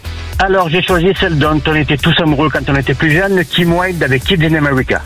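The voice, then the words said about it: Southern French accent. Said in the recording (French): “Avec l'accent méridional”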